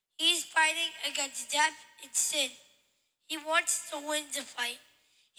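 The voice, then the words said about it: Slight New York accent. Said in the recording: “That little accent too. ... he had a little bit of a New York accent”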